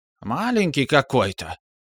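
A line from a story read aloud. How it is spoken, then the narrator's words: Loud whisper, witch. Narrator (Russian): громким шепотом произнесла одна из ведьм после минутного молчания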